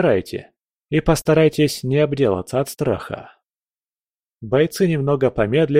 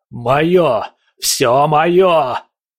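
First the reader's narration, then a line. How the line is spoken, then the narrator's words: Roar in an alien voice. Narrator (Russian): проревел он голосом, который явно принадлежал не ему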